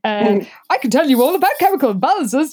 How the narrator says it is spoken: Jessica said cheerfully

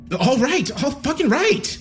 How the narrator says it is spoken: I cried out

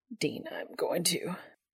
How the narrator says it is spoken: is all he manages in a strained voice

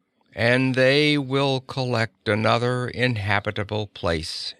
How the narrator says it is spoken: she said, her voice flat and toneless

